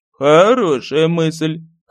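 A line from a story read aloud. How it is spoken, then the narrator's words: Chuckled. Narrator (Russian): хохотнул Дирик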